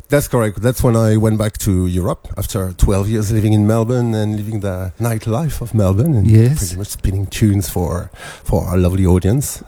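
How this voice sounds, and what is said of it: French accent. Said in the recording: “your beautiful French accent”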